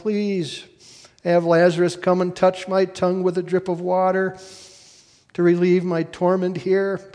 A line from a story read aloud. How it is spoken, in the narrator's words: He called out to Abraham